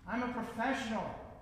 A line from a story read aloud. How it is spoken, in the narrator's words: shouts